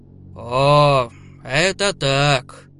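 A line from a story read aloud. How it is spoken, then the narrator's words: Drawling creature. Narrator (Russian): протянуло первое существо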